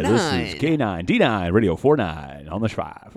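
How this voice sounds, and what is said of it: Exaggerated radio DJ voice. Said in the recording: “in a radio voice”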